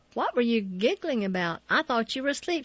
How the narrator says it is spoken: she said

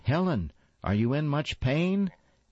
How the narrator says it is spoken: One of the neighbor women called out

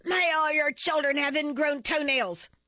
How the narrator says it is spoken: Enraged, shook her fists at me and yelled

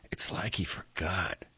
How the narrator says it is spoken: he whispered to Turner

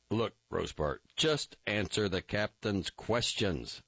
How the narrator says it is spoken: I said sharply

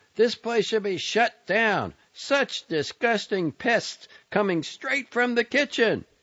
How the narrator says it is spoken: Someone yelled

